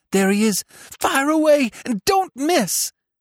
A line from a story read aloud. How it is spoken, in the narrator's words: cried Seth